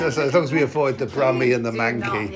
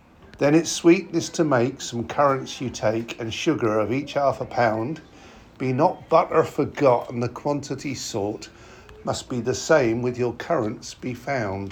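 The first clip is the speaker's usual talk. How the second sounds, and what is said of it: Norwich accent. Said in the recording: “I think I've slipped into a Norwich accent.”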